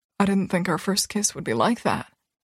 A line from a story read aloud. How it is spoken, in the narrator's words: he says quietly